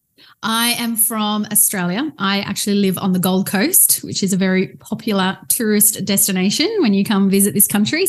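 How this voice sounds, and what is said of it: Australian English accent. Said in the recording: “you can probably tell ... is not from the United States, especially with that accent”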